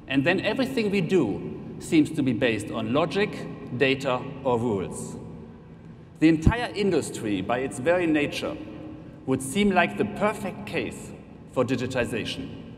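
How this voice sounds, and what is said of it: German accent. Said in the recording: “You have probably heard it by now from my accent anyway, but I'm representing Allianz Germany.”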